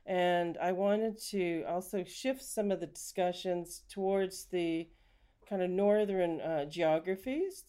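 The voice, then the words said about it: Canadian accent. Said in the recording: “You can probably tell from my accent, I'm actually from Canada.”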